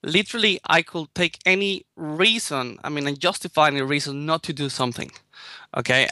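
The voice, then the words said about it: Strong Spanish accent. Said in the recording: “I have a strong Spanish accent”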